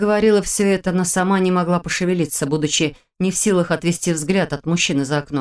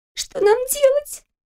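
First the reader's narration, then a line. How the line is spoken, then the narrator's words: Squeaky. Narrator (Russian): пискнула рядом Кристина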